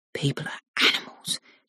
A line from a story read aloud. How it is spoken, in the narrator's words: Jasmine mutters